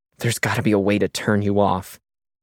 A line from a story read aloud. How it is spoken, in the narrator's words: she muttered